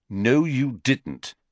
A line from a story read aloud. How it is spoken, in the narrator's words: said Harry firmly